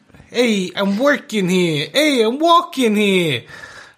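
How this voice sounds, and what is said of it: Imitated New York accent. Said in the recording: “That's my New York impression.”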